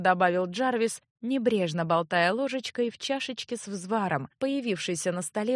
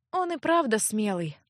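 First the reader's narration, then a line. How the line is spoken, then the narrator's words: Sad sigh. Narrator (Russian): огорченно вздохнула Леаттия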